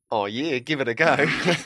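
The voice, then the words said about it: Poor put-on Australian accent. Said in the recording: “forgive my appalling Australian accent”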